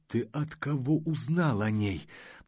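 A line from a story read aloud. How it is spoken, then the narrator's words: Hoarse wheeze. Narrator (Russian): прохрипел он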